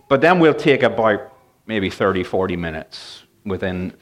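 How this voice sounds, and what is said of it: Northern Irish and English mixed accent. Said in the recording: “in Northern Ireland and in England. So that's where the accent is from. ... My accent is all over the map.”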